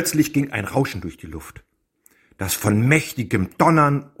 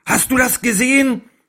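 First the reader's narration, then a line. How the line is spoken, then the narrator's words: Calling. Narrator (German): rief Ekard seinem Freund zu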